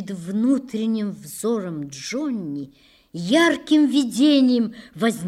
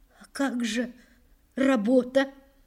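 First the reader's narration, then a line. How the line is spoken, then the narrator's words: Mother's trembling voice. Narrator (Russian): дрожащим голосом проговорила мать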